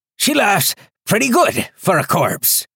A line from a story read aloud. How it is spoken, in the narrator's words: Foster panted